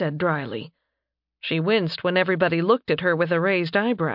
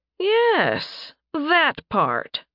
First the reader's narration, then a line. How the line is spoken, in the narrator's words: Leopold drawled